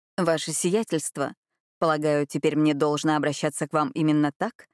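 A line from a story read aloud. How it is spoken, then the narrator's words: Grim smirk. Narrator (Russian): Адольфо мрачно ухмыльнулся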